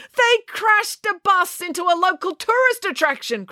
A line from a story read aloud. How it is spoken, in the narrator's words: cried Mr